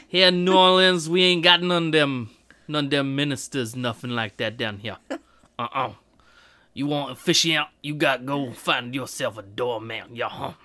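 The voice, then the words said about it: Badly imitated Cajun accent. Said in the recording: “I thought that was a pretty good Cajun accent ... That was really bad. It was so bad.”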